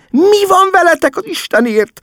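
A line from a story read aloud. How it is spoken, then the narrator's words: Mother pleading. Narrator (Hungarian): könyörgött mama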